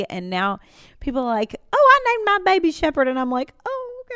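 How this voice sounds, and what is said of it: Exaggerated, stronger regional accent. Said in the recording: “I love how you always bring the accent in there ... I talk like when I repeat myself, in a stronger accent”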